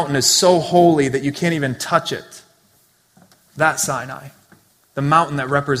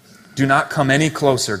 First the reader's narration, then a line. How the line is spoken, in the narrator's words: God said